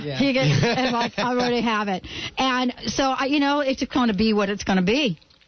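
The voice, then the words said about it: New York/New Jersey accent. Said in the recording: “I have got, like, the New York, New Jersey accent ... It's the Jersey thing.”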